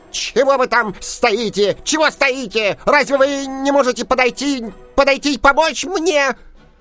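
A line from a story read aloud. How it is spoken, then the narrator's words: Shout. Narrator (Russian): закричал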